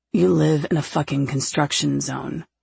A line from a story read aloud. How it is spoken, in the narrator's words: he mutters